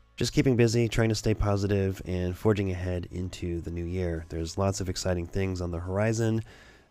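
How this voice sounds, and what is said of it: Voice sounds sick from cold. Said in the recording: “I'm just getting over a cold, so you can probably hear it in my voice”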